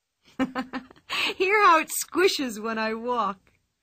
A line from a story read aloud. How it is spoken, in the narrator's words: laughed Pippi